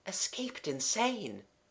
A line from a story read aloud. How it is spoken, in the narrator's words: murmuring